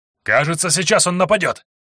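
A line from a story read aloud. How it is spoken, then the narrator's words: Shout. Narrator (Russian): крикнул Лекс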